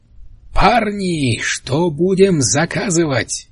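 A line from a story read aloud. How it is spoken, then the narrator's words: Yell over loud music. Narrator (Russian): Заорал он, пытаясь перекричать грохот магнитофонной музыки и шум хвастливых разговоров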